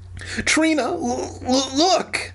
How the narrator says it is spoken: Dan stammered

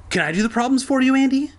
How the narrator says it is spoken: he asked eagerly

